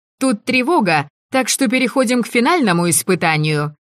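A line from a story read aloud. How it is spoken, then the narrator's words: Cheerful, brazen lie. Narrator (Russian): весело и нагло соврала я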